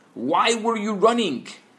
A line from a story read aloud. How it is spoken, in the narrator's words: he shouts